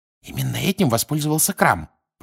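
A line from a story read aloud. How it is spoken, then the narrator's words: Whisper. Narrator (Russian): прошептала Гермиона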